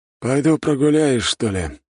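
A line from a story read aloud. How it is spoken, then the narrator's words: Sigh. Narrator (Russian): вздохнул Дорнчев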